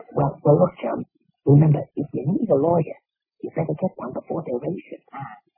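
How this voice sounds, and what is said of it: Whispering, strained voice. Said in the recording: “Why are we whispering? ... I have bronchitis ... Laryngitis.”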